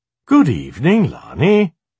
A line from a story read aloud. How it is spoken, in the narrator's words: greeted in a very cheerful voice